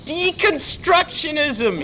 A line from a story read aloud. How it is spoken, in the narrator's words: He screamed again